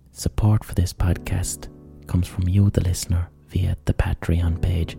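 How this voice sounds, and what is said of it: Whispering. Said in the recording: “whispering because it's 2 in the fucking morning”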